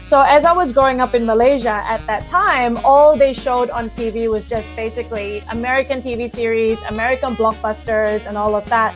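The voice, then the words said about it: Neutral accent, slight American twang. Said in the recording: “the natural accent that I defaulted to would be the American accent ... it probably sounds more neutral now with like a bit of an American twang”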